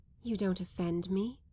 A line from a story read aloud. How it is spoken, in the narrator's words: the young girl murmured, smiling as if an angel had kissed her